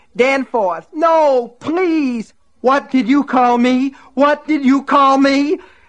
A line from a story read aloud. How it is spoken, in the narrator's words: He screamed it over and over again